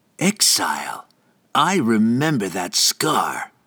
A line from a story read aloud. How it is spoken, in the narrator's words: he hissed